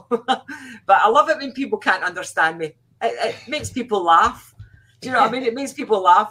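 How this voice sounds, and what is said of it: Strong Scottish accent. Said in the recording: “my accent's really, really strong ... I'm so Scottish”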